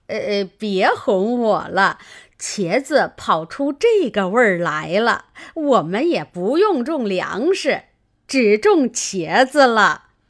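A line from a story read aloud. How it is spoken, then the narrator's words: Laughing. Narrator (Chinese): 刘姥姥笑道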